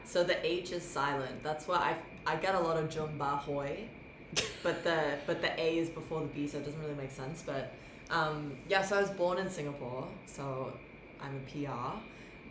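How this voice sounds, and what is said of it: Clear, soothing international accent. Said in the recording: “My accent is a bit, no one really knows where I am. ... It's an international accent. ... it's very clear and it's really nice. ... it's very soothing. It's very podcast voice-like”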